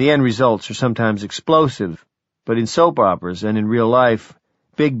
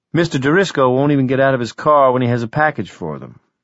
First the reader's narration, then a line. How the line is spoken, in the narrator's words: Wireman said